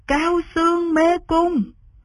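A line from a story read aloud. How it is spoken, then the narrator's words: Seven people cheering together. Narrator (Vietnamese): Cả bảy người cùng reo lên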